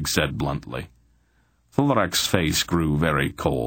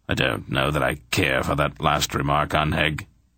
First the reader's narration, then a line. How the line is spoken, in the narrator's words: said stiffly